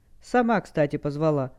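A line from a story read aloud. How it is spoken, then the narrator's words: Offended reply. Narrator (Russian): обиженно отозвался Даркианец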